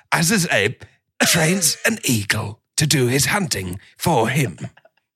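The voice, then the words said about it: David Attenborough impression, British narration. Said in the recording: “That's like a pretty good Attenborough. ... Great Attenborough. ... I leave myself voice messages as David. ... the British accent”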